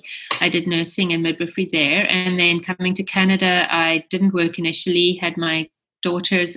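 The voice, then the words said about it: South African accent. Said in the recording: “as you can tell from my accent, I'm from South Africa originally.”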